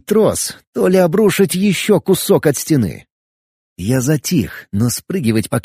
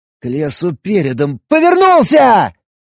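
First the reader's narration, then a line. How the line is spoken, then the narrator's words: Shouting. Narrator (Russian): закричал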